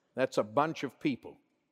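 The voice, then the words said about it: Southern US accent. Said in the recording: “in my great, marvelous, wonderful southern dialect?”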